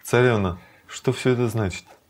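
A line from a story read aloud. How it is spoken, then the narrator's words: Dejected. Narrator (Russian): Рукмини уныло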